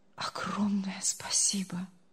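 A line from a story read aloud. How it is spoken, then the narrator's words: Barely audible. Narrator (Russian): Едва слышно проговорил он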